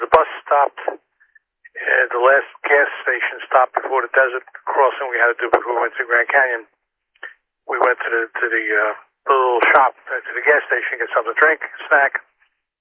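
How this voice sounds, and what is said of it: Brooklyn New York accent. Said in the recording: “I sound distinctly Brooklyn ... I still have that accent”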